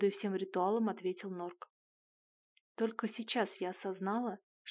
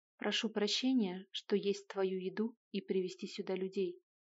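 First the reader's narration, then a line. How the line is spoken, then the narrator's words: Calm and cold. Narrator (Russian): спокойно и очень хладнокровно произнес Кнесс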